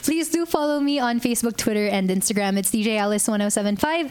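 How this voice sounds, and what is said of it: Polished radio DJ voice. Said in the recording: “I love the sound of your voice. ... Iba na yung boses. ... The DJ voice. ... That's a professional voice.”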